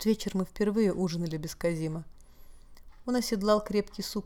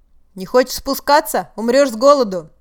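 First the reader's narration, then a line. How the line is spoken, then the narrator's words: Shouted. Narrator (Russian): барон Арминию, обращаясь к теням за окном, крикнул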